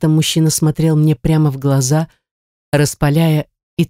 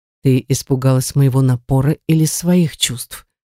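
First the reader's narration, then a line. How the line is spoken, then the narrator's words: Plain. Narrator (Russian): спросил он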